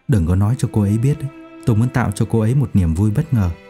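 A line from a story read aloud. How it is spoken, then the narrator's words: Quiet voice. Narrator (Vietnamese): Dương Lâm Hàng nhỏ giọng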